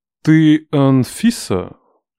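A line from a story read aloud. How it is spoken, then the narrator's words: Affected drawl, loud bark. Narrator (Russian): Манерно растягивая гласные, гаркнуло чудо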